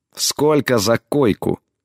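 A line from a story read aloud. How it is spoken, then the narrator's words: Through gritted teeth. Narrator (Russian): процедила она в ответ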